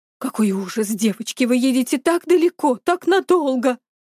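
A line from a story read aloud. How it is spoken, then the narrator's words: Trembling voice. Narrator (Russian): дрожащим голосом сказал Алисин папа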